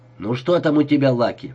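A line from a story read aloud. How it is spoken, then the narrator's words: Sharp question. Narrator (Russian): спросила Люси резко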